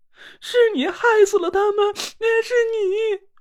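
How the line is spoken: Wailing, crying. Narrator (Chinese): 唐果儿张着嘴大哭了起来

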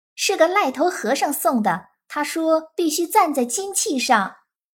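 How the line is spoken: Baby laughing. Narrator (Chinese): 婴儿笑道

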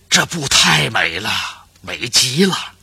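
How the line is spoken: Repeated admiring praise. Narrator (Chinese): 连连赞叹

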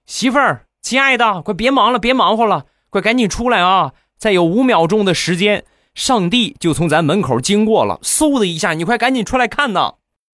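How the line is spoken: Frightened shout. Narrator (Chinese): 这个大哥不淡定了，一脸惊恐的就冲里边就喊

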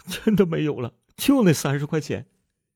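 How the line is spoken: Crying. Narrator (Chinese): 杜鹃哭着说

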